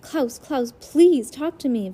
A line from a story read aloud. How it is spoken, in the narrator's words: Violet cried